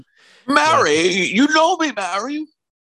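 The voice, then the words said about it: Imitates another person's voice. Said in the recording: “I can't do a good impression.”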